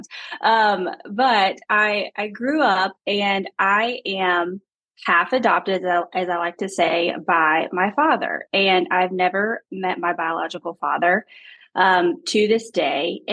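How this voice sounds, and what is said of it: Southern Alabama accent. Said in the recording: “I grew up in a small town in Alabama, if you can't tell with my accent.”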